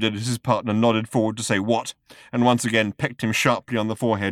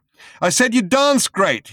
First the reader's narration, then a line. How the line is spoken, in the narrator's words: he shouted